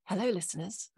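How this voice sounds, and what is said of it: Polished, formal telephone voice. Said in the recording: “She's got a proper telephone voice as well ... That is a proper telephone voice.”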